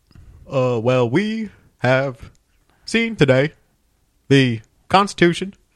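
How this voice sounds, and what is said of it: Obama impression, drawling cadence. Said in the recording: “What about like Obama? ... Not bad. ... It's more of the cadence than what the like actual sound is. ... you do have to have a little bit of a drawl”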